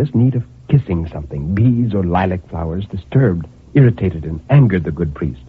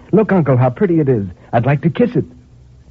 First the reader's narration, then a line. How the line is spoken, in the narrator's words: cried in bringing it back in triumph